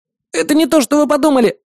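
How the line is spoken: Squeak. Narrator (Russian): пискнул он

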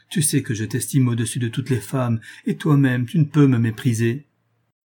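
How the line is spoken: Exclaimed. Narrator (French): s'écria Julien

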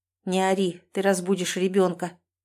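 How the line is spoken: Hissing through teeth, pained. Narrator (Russian): Шиплю сквозь зубы, чувствуя, как начинает раскалываться голова

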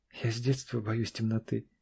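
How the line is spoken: Quiet confession. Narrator (Russian): негромко призналась Аня

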